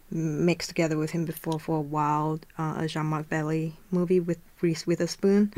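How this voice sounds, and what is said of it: Speaks with a non-native accent. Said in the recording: “sorry, my accent”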